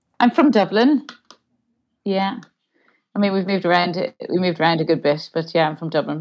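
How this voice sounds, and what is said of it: Irish accent, low speaking voice. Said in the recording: “my speaking voice is actually much lower than my singing voice... I naturally just drop down to where I think quite a lot of Irish people do speak relatively low, women in particular... our accent is quite grounded”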